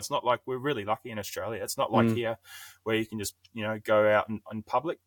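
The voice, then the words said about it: South African accent with New Zealand tinge. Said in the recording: “you had a very New Zealand sounding South African accent going on there.”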